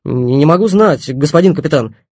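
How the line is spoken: Shouted out. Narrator (Russian): выкрикнул Оноженко

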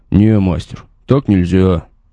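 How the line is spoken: Grumbling. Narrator (Russian): пробурчал Вовка

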